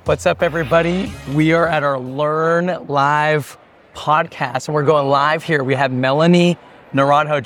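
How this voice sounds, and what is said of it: Hoarse, partly lost voice. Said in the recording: “I lost my voice a little bit ... it's going to be a rough show on my voice”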